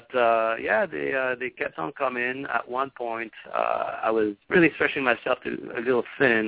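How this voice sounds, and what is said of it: French accent. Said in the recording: “a little bit of the French accent”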